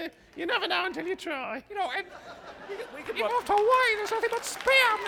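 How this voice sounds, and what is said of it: Usual voice. Nothing is said of it.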